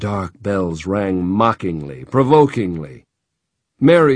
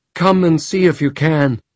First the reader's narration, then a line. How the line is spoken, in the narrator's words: Jenna cried in a trembling voice